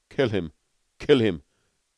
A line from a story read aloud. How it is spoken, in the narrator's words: gasped Beetle